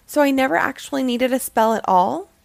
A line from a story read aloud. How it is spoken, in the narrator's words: said